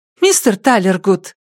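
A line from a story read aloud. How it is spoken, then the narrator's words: Joyful calling out. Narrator (Russian): радостно окликнула Пенни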